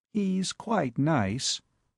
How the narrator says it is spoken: said Molly quietly

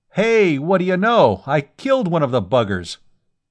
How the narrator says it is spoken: Jerry Revis was shouting

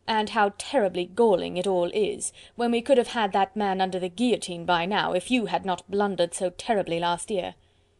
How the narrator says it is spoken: he continued, speaking more sharply

